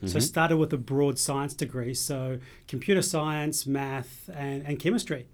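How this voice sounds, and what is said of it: Mixed New Zealand-Australian accent. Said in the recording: “I'm from New Zealand, and I've Scottish... The accent may be giving it away... I've been in Australia for 20 years, so my accent is kind of messed up”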